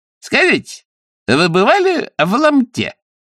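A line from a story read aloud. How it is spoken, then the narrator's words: Cheerful, relaxed question. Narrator (Russian): спросил кучер весело и непринужденно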